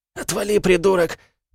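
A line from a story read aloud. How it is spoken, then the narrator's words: Hoarse, struggling wheeze. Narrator (Russian): прохрипел Мартин, стараясь вырваться из мертвой хватки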